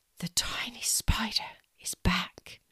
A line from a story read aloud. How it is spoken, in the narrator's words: She whispered